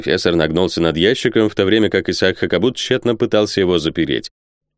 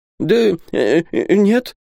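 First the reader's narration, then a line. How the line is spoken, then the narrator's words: Confused stammering. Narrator (Russian): заикался Исаак, сам не понимая, что он говорит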